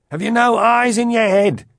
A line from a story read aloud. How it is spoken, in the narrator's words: shouted back